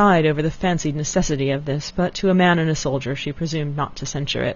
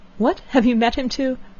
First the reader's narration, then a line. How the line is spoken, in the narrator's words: Elinor, startled by his manner, looked at him anxiously, saying